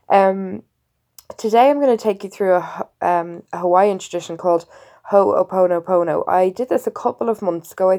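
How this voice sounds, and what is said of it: Congested, unwell-sounding voice. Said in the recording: “I'm really unwell with sinusitis, and you can probably still hear it in my voice”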